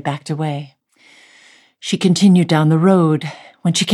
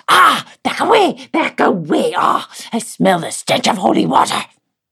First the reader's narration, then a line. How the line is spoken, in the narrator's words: the creature hissed